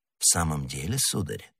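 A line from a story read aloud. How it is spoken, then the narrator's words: Even calmer question. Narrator (Russian): переспросил незнакомец еще более спокойным тоном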